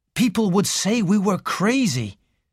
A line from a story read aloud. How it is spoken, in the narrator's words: said Raymond bitterly